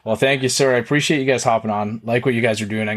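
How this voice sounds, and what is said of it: Strong Canadian English accent. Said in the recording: “I have a very Canadian accent, when listening back to clips, I find I have a very Canadian accent.”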